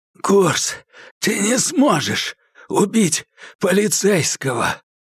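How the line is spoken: Breathless, strained. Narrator (Russian): задыхаясь, выдавил из себя Хэтэуэй

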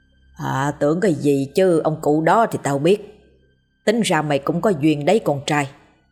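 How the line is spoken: Husky calm drawl. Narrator (Vietnamese): ông Tâm cất giọng khề khà, bình thản nói

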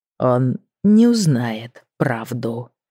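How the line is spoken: Deadly menacing tone. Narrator (Russian): произнес он смертельно опасным тоном

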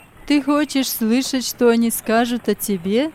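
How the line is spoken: Merry laughing. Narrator (Russian): Эдуард весело засмеялся

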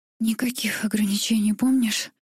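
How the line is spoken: Breathless broken whisper. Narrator (Russian): выдохнула прерывистым шепотом

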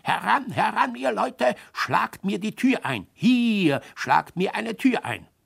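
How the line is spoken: Shouted loudly. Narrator (German): laut schrie

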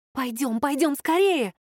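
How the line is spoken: Frightened whisper. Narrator (Russian): испуганно зашептала

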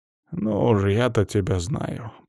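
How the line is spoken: Grumbling woman. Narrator (Russian): проворчала женщина

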